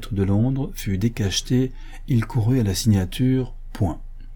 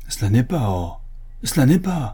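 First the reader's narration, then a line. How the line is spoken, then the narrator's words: Exclaimed. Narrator (French): s'écria M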